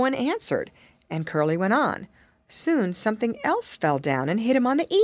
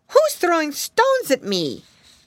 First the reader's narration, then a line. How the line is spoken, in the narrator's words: exclaimed